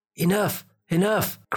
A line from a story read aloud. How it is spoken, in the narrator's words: cried something deep inside their hearts